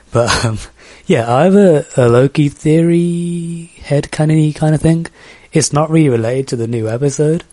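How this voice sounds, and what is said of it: Birmingham English accent. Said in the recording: “from Birmingham in England, not Alabama... trying to do my accent”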